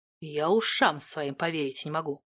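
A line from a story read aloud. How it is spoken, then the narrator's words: Stunned mutter. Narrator (Russian): пробормотал он пораженно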